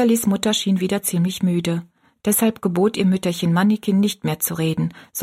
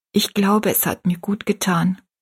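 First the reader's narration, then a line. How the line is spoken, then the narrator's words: Plain. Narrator (German): sagte Rosalies Mutter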